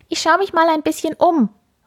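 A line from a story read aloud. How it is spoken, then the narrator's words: Called out. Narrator (German): ruft er seiner Mama zu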